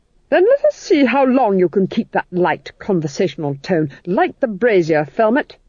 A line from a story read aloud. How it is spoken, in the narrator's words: snapped the Duchess